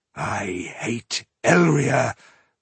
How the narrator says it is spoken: growled Ironheart

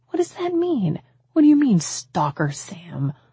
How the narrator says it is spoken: I asked, my voice timid

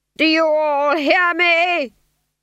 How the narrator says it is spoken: He screamed

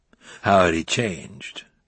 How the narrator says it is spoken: She sighed

